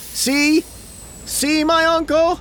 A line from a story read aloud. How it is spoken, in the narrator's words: cried